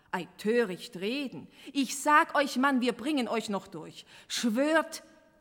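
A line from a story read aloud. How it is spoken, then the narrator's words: Stern commanding tone. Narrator (German): herrschte Enoch streng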